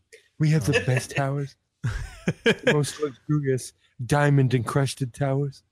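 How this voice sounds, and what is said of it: Imitates another person's voice. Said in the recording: “You've got to do your obligatory Donald Trump impression.”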